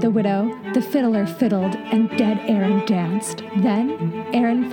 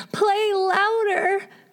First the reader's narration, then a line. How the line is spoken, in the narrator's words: cried the widow